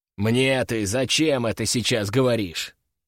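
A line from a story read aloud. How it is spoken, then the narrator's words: Man's growl. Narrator (Russian): рыкнул мужик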